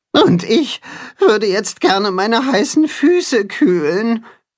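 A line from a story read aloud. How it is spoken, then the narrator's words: Groaning. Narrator (German): stöhnt das Katzenhuhn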